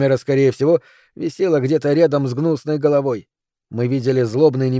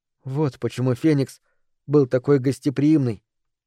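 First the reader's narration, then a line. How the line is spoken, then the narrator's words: Whisper. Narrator (Russian): прошептала Микаэла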